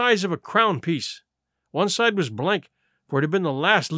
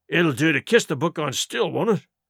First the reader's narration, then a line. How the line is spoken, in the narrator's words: growled Dick, who was evidently uneasy at the curse he'd brought upon himself